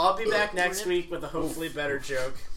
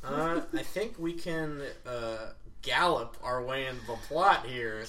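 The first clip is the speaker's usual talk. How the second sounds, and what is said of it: Put-on southern accent. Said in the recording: “southern accent”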